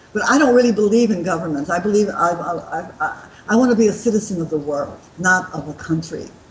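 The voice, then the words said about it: American accent. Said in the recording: “your listeners have caught on to my accent that I'm not an Aussie... I was born in Missouri, in St. Louis, but I lived most of my American life in Los Angeles”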